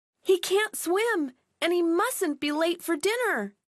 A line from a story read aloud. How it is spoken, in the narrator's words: cried Millie and Molly